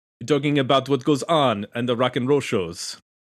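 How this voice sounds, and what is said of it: Bad put-on French accent. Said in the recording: “I was doing a French accent ... my terrible accent”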